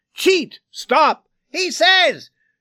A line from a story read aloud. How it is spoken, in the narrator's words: These pieces cut the screaming and rang out sharply